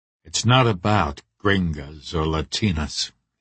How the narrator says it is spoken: he said quietly

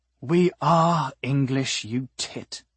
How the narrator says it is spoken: Decibel said with a sigh

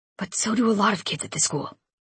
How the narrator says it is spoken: Lincoln whispered

